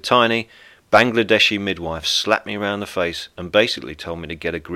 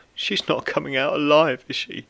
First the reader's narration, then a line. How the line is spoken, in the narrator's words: sank to my knees and wailed